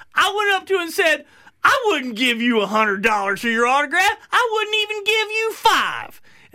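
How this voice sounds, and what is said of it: Imitates another person's voice. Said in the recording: “pretty good Byron impression”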